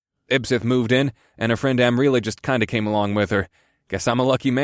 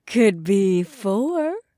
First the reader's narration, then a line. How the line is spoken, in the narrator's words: Tanya purred